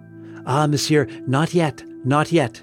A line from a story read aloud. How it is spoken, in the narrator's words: panted the priest